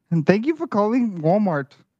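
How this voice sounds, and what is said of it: Put-on Indian accent. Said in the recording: “Was that Indian? ... Give me some more of that”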